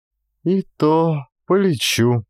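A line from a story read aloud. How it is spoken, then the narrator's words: Dejected, grief-stricken voice. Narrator (Russian): упавшим голосом повторяла за сыном убитая горем Ульяна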